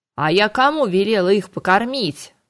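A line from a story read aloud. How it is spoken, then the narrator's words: Angry growl. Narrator (Russian): сердито рыкнул Харган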